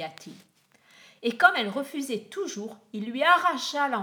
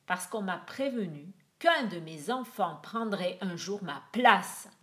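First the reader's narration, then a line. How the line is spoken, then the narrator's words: Grumbled. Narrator (French): grogna-t-il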